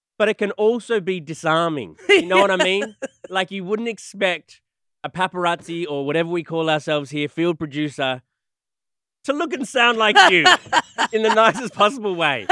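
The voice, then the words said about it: Australian accent. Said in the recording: “my disarming thing is the Australian accent ... Why does he sound like that?”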